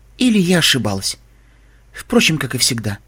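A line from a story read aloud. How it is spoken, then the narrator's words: Sigh. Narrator (Russian): вздохнула Вельвет Ремеди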